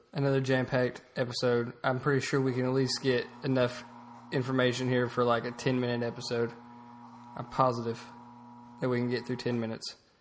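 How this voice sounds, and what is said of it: Sick, sore-throated voice. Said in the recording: “I don't know if you can tell by my voice, I'm a little under the weather today... Throat's hurting a little bit.”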